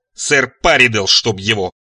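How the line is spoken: Barking police voice. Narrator (Russian): рявкнула Бритомарта своим полицейским голосом

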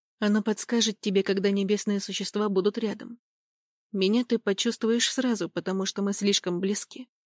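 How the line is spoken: Quiet reply. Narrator (Russian): тихо ответил Скотт

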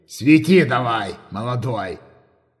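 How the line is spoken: Grumbling. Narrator (Russian): проворчал Рапалыч

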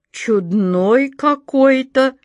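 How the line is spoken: Surprised drawl. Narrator (Russian): удивленно протянула она

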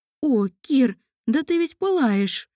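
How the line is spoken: Exclamation. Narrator (Russian): воскликнула Анна

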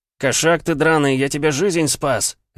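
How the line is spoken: Barked. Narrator (Russian): рявкнул я

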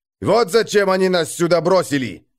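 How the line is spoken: Yelling. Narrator (Russian): заорал он

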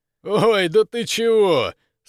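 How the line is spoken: Laughing question. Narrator (Russian): сквозь смех вопросил Жила

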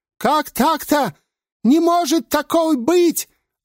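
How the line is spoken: Yelling. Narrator (Russian): орал шайтан

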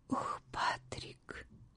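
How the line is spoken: Whisper. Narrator (Russian): прошептала Кат

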